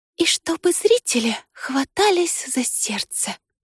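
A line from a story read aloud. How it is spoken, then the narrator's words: Whispered. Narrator (Russian): шептала Мари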